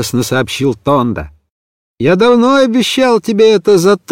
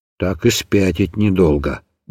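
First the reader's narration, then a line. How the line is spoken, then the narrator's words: Muttering. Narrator (Russian): бормочет Тонда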